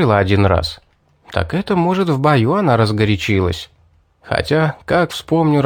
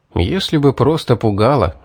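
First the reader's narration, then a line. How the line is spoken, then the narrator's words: Sighing. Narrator (Russian): вздохнул я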